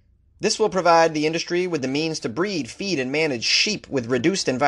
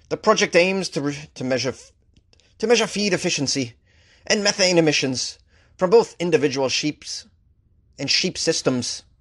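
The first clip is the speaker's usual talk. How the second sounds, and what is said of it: Put-on Scottish accent. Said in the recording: “Is that a good Scottish accent?”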